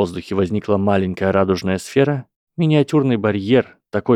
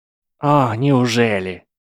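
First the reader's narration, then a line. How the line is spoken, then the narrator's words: Irritated reply. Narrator (Russian): раздраженно отозвался Ли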